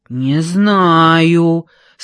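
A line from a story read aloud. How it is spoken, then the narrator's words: Big man's deep bass. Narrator (Russian): пробасил здоровяк, которого называли Танком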